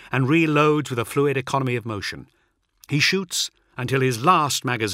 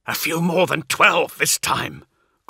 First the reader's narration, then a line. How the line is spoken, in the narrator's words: grunts Sidance as he hacks his chainsaw down through a word-bearer's collarbone and sternum with a two-handed grip